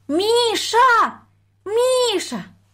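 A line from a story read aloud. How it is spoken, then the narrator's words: Thin high call. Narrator (Russian): позвала она тоненьким голосом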